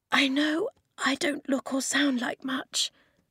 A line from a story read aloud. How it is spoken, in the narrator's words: the girl whispered from behind him